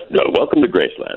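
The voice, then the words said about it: Announcer voice. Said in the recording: “trying to do my best announcer voice”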